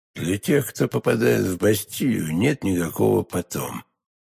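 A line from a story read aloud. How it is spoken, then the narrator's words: Hollow muffled voice. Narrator (Russian): глухим голосом ответил кардинал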